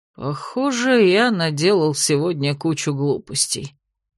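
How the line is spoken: Dejected mumble. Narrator (Russian): удрученно пробормотал герцог

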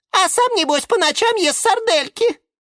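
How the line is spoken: Squeaky. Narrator (Russian): пискнула фиалка Наталка

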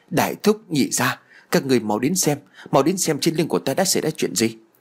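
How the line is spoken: Frightened shout. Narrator (Vietnamese): Tôi liền sợ hãi liền la lên

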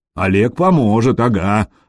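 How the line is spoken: Grumble. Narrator (Russian): проворчал Гадимир

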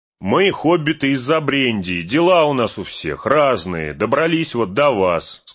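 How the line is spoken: Plain. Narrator (Russian): сказал Мэри

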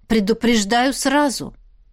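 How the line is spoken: Growling tone. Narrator (Russian): В голосе Чернобуровой появились рычащие нотки

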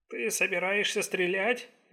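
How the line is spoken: Uncertain. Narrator (Russian): неуверенно спросил Дэн

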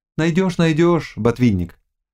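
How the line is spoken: Plain. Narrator (Russian): сказал Володаевский

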